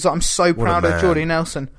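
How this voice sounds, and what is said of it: Choked-up imitation of another person's voice. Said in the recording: “welling up and choked up ... that was my impression of Aaron Rodgers”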